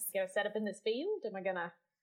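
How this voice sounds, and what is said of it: Attempted Australian accent, sounds New Zealand. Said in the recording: “That was really or New Zealand. I can't do Australia. ... I like try to do a little Australian, but it always ends up going into New Zealand.”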